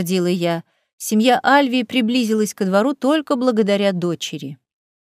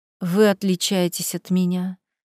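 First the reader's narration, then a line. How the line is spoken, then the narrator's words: Breathy exhale. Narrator (Russian): выдохнула Ханна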